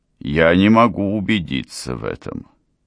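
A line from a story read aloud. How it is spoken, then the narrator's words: Gloomy. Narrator (Russian): сказал он мрачно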